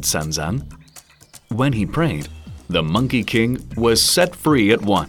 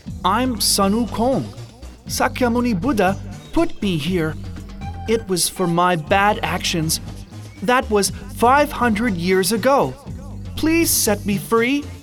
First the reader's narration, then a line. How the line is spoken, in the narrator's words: The voice cried out